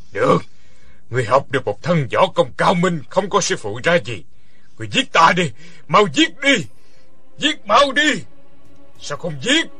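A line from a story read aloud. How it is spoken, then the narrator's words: Fearful angry growl. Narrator (Vietnamese): Lão sợ hãi và giận dữ gằn giọng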